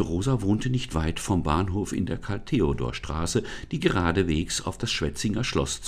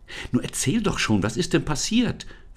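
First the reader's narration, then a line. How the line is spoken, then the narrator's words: Excited question. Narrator (German): fragte Lisa aufgeregt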